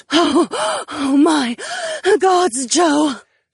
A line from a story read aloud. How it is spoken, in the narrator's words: panted